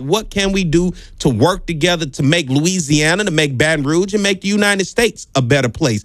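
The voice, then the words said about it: Southern American accent. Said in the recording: “I'm talking Southern.”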